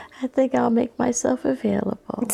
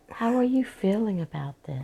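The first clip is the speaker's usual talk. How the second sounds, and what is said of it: Calm soothing therapist voice. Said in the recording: “Don't talk to me in your therapist voice.”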